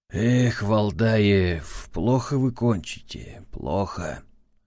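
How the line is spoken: Sighing. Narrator (Russian): вздохнул шеф

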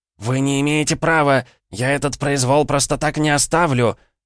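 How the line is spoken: Dazed swindler yelling. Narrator (Russian): завопил мошенник, очухавшийся после легкого воздействия на него силы смерти

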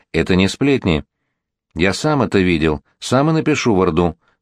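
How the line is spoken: Calm. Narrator (Russian): спокойно сказал Иван Данилович

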